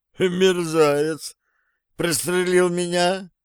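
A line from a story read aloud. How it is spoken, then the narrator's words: Bewildered. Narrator (Russian): сказал он растерянно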